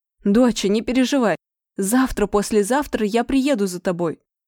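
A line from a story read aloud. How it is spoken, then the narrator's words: Father shouting after someone. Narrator (Russian): прокричал мне вслед папка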